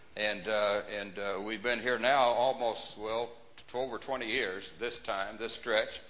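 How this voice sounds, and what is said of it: Texas accent. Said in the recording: “where do you get the Texas accent?”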